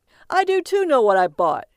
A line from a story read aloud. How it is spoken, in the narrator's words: called out